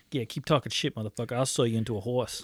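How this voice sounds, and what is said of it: Put-on unidentifiable accent. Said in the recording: “I don't know what kind of accent that was”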